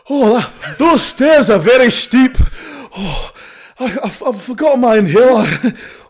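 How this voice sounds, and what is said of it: Breathless, wheezing character voice. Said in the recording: “asthmatic Bond ... Just an out of breath man.”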